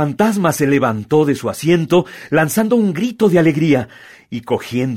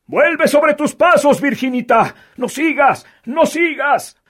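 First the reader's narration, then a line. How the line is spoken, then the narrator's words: Shouting. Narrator (Spanish): gritaban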